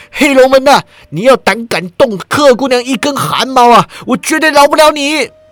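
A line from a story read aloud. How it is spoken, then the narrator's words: Shouting. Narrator (Chinese): 叫道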